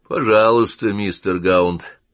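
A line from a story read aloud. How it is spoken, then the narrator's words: Calm reply. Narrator (Russian): спокойно ответил Уэбли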